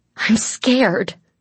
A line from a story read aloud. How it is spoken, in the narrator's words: the girl snapped